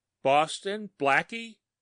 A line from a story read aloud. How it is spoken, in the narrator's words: cried exultantly